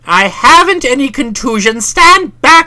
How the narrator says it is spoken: cried, for I was prepared to defend myself with iron resolution

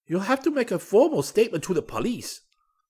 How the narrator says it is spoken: the clerk snapped

